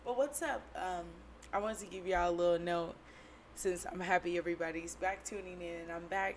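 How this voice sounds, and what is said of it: Hoarse, raspy smoker-like voice. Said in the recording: “You know I'm horse as shit, okay? ... I've been hoarse about 2 weeks. Voice sound very cool packs of smokes, menthol lights or some shit. ... don't know why I'm hoarse”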